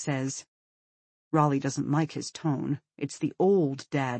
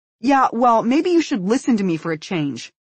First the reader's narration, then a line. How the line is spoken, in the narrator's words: Raleigh says sharply